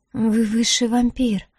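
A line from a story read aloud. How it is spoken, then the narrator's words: Belated breathy exhale. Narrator (Russian): запоздало выдохнула Диара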